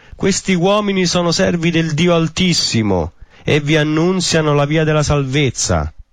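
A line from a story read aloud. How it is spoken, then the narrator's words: Shouting. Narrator (Italian): gridava dicendo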